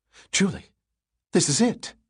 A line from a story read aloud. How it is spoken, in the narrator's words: she gasped